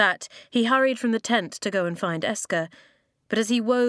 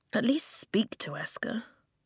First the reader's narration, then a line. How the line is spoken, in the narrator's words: Flint muttered